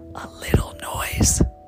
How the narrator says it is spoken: whispered the rabbit

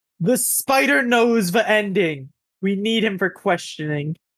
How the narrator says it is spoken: she just yells, while looking back

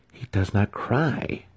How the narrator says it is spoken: Brisa remarked, amazed that the babe would quietly accept such a stinging light

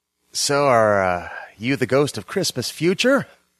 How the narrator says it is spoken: asked, groaning

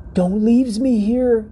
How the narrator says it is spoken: cried the fang

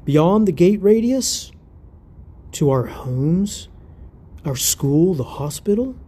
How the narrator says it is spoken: Wheeler sighed

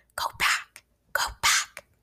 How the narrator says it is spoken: hissing

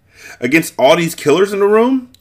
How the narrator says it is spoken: He bellowed in laughter

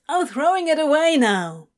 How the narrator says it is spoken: Crowley yelled over his shoulder

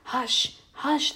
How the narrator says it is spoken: they whispered

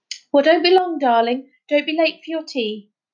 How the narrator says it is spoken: Lamb hesitated, then shouted

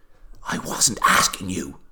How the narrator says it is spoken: whispered Nancy

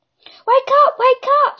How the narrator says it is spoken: screamed

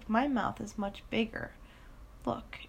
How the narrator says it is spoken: He chuckled

